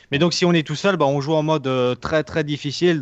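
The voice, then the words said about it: Slight Alsatian regional French accent. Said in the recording (French): “T'as un petit accent, tu viens de Belgique ... Alsace ... j'ai un petit accent.”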